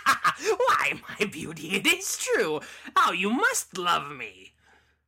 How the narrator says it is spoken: Cackling all the while, the loathsome beggar

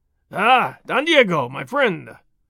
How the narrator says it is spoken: Gonzalez cried

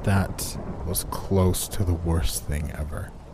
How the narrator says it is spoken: I groaned, in pain

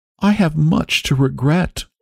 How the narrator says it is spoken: she said quaveringly

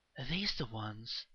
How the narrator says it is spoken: the woman whispered

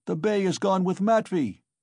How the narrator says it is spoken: he shouted from the cart

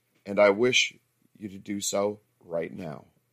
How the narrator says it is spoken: answered gently

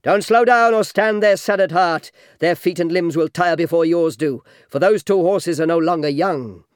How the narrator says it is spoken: Menelaus yelled

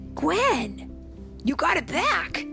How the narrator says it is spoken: Peter exclaimed

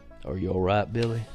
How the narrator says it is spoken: In a slow, calm voice, he asked

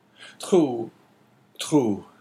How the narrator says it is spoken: said Caderousse in a choking voice

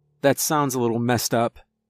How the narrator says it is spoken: I said

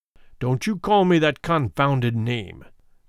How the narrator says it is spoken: growled McFarlane

